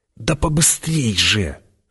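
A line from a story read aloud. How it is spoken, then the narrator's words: Urgent whisper. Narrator (Russian): шепотом подгоняла его Чани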